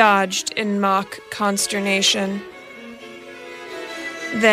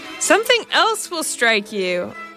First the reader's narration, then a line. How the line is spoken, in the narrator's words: cried playfully